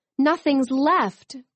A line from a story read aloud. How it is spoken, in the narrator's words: cried Nico